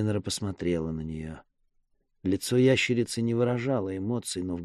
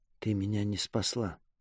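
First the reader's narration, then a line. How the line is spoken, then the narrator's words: Quiet. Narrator (Russian): тихо сказала Сеннера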